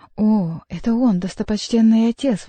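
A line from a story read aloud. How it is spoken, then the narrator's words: Exclamation. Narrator (Russian): воскликнул хозяин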